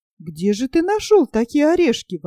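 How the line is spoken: Exclamation. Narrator (Russian): воскликнул Нильс

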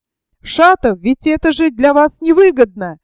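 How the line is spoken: Mysterious shout after someone. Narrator (Russian): загадочно крикнул ему вслед Верховенский

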